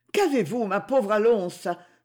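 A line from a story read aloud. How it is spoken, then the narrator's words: Exclaiming. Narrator (French): s'écria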